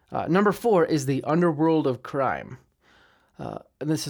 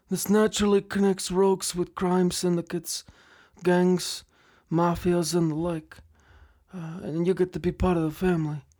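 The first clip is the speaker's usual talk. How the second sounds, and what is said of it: Godfather-style mafia boss voice. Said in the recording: “this is where I do my the Godfather impression”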